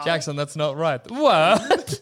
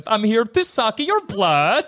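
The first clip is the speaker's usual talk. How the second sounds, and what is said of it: Botched Dracula accent, weirdly Swedish. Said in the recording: “Dracula's accent. I like to imagine I'd do it wrong and do a weird Swedish accent.”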